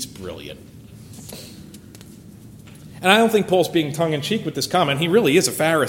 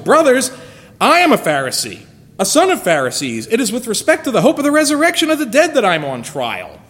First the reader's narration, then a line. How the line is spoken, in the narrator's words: he cried out in the council